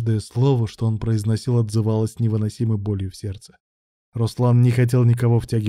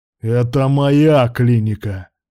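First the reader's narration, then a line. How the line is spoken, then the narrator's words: Barking. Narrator (Russian): рявкнул Руслан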